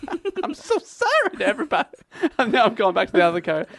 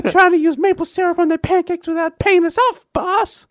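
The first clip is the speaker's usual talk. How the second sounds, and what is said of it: High-pitched mobster character voice. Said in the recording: “I'm trying to be a mobster, but I've sucked in some helium ... What is that accent? ... Is that French-Canadian? ... Absolutely not.”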